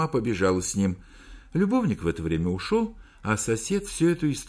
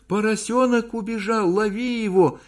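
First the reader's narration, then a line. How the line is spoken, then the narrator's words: Shouting to husband. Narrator (Russian): закричала мужу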